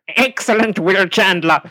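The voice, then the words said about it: Silurian voice impression. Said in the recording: “Nicholas Briggs as the voice of the Silurians ... do the voice. Do the accent.”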